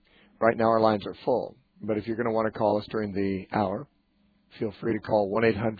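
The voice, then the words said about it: Voice sounds unwell. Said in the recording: “I'm sorry your voice isn't doing well right now.”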